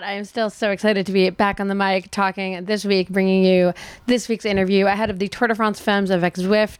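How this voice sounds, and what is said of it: Scratchy, slightly hoarse voice. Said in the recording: “my voice is a little scratchy this week ... doing a lot of speaking and teaching yoga and doing nighttime talks without a microphone ... I'm still just a little bit hoarse”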